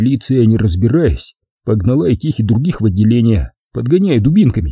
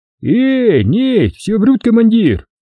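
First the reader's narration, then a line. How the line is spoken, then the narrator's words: Shout. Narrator (Russian): крикнул кто-то из азербайджанцев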